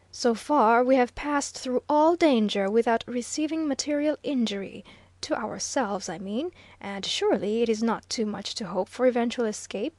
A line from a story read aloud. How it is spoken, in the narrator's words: said earnestly